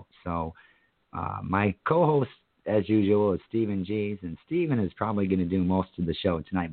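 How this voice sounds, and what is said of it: Hoarse, wheezy sick voice. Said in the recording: “In case you're noticing my voice, I sound like Wheezy Jefferson. I'm getting over, trying to get over strep throat.”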